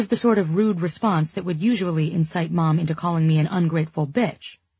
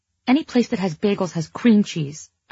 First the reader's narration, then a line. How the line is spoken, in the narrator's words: I snapped